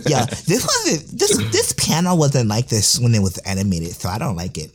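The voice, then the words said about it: Mocking impression of a whiny fan. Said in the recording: “my toxic Annie Twitter impression”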